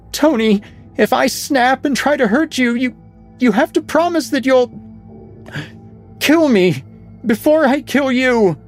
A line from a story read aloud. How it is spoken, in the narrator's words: Madeline screamed through the door